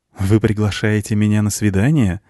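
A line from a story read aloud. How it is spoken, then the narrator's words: Laughing. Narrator (Russian): засмеялась седьмая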